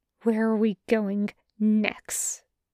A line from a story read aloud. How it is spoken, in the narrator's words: He hisses into Reyes's ear